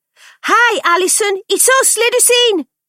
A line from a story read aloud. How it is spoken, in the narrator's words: Frankie shouted through the letterbox when there was no immediate answer